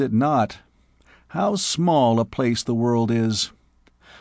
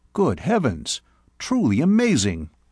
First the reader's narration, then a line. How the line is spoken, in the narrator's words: I exclaimed